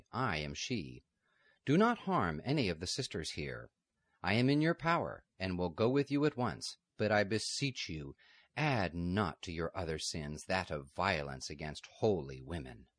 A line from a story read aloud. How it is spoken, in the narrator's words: said calmly